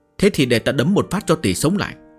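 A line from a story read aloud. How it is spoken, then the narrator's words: Angry. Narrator (Vietnamese): Bùi Tiền tức giận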